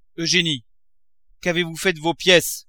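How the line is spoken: Shouted. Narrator (French): cria-t-il

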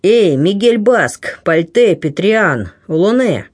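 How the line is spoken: Booming pirate's call. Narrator (Russian): Громовым голосом кликнул флебустьер

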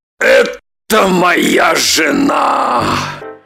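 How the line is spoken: Breathed out. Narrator (Russian): выдохнул Роман

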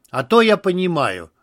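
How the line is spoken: Plain. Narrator (Russian): ответил пилот

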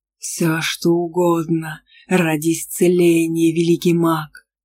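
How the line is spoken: Growling. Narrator (Russian): Прорычал колдун

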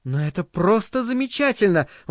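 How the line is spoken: Exclaiming. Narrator (Russian): воскликнула Линайна

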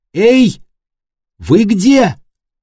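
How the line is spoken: Loud shout. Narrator (Russian): громко крикнула

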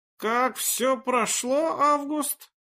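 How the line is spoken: Apprehensive hoarse rasp. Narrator (Russian): Предчувствуя, что ответ ему не понравится, прохрипел фельдмаршал

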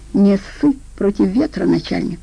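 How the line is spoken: Angry retort. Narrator (Russian): злобно отозвался один из пациентов

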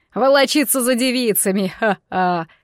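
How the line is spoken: King's signature guffaw. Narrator (Russian): фирменно хохотнул его величество

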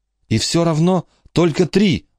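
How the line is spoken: Exclaimed. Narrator (Russian): воскликнул Майкл

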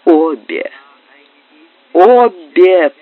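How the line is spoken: Sick man moaning. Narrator (Russian): простонал больной

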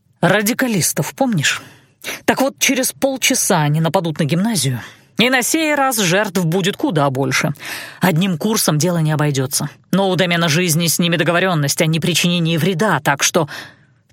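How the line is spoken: Spoken after deep exhale. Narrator (Russian): парень глубоко выдохнул, нахмурился и произнес

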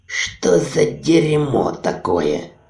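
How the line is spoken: Grumble. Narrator (Russian): проворчал Ури

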